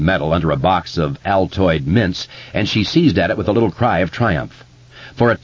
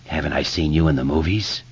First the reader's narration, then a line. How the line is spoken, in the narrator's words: Tom Rogan whispered